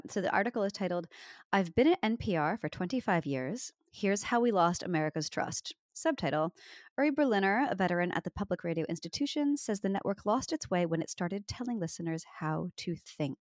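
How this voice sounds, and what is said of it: Imitated NPR radio announcer voice. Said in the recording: “that was my best attempt at NPR voice.”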